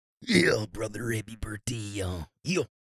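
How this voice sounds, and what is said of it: Imitates another person's voice. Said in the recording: “does his Randy Savage impression”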